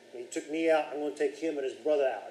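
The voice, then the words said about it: Put-on New Jersey accent. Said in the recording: “I don't know where the New Jersey accent came from”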